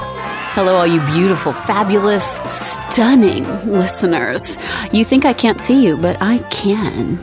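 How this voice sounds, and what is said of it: Sexy, sultry voice. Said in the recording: “you heard that sexy voice she was doing ... she's the Marilyn Monroe of the voiceover world”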